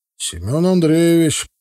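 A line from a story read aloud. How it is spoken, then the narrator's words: Deep bass voice. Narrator (Russian): пробасил тот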